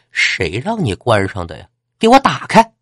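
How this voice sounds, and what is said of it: Sharp shrill female voice. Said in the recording (Chinese): “一个尖锐的女生的声音”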